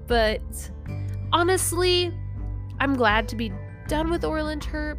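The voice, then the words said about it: Nasal, congested voice. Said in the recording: “I'm a little nasally, so that's probably why I sound a little weird.”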